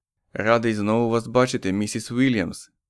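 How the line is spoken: Gentle. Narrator (Ukrainian): лагідно сказав Річардс

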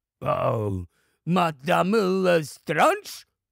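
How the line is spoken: Frightened goblin exclaiming. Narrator (Ukrainian): вигукнув гоблін, котрий був явно переляканий

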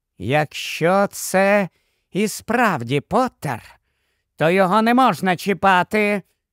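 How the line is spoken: Muttering to herself. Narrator (Ukrainian): Вона бурмотіла не стільки іншим, як сама собі

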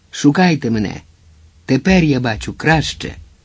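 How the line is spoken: Exclaimed. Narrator (Ukrainian): Хорхе, який вигукнув

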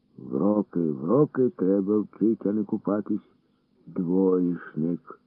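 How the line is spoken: Old man's groaning grumble. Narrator (Ukrainian): Буркнув дід і, крекчучи

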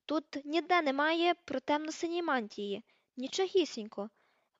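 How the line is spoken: Feverish exclamation. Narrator (Ukrainian): вигукнула, гарячково гортаючи аркуші

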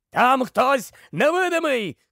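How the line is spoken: Masked man shouting. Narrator (Ukrainian): крикнув смертежер у масці

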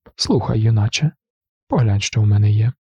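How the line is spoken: Confiding tone. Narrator (Ukrainian): завідувач сказав довірливим тоном

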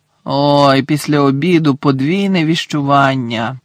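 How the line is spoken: Groaned. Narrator (Ukrainian): простогнав Гаррі

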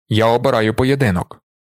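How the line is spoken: Growled. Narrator (Ukrainian): прогарчав Джаміс

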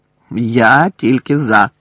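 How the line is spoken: Growling. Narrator (Ukrainian): прогарчав Дикозор

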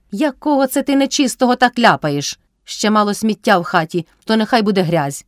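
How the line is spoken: Shouted. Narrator (Ukrainian): крикнула Кайдашиха

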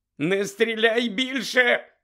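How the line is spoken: Shrieked. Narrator (Ukrainian): заверещав Фексон

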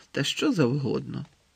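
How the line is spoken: Gloomy mutter while eating. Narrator (Ukrainian): похмуро буркнув, надкушуючи грінку

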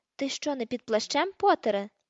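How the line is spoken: Shouted. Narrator (Ukrainian): закричав смертежер

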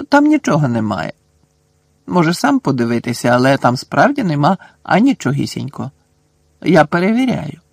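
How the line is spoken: Calm. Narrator (Ukrainian): Герміона спокійно сказала

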